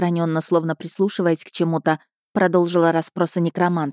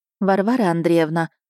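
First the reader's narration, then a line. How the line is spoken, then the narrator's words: Calm interruption. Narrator (Russian): спокойно прервала ее барыня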